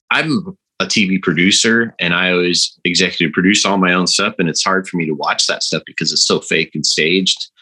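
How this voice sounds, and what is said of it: Texas accent. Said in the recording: “That Texas accent down after being there for a few years.”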